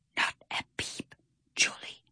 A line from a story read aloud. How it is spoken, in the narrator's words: he whispered